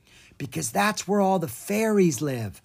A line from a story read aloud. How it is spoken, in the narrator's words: Aaaah whispered back